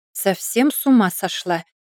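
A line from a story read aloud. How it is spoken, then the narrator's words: Icy cold tone. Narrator (Russian): произнес ледяным тоном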